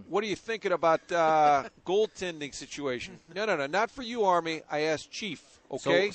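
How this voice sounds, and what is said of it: Put-on New York accent. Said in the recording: “So why is it in a New York accent there? ... a long-established East Coast voice.”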